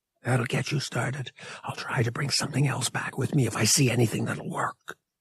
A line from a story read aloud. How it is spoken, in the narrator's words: whispered